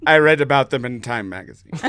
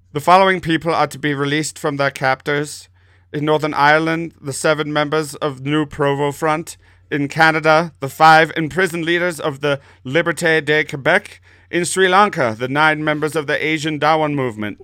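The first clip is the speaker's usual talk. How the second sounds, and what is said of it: Alan Rickman impression. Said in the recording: “You sound like Trey Parker and Matt Stone doing an impression of Alan Rickman.”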